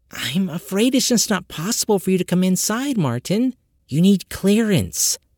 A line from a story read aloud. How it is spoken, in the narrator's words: she leaned forward and whispered